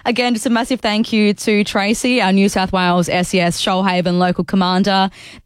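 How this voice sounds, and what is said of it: Croaky, hoarse voice. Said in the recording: “I've got a little croak in my throat, so if I lose my voice about halfway through the show”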